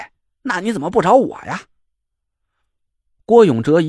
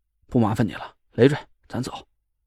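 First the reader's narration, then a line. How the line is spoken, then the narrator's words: Cold refusal. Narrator (Chinese): 张俊轩就冷冷的回绝了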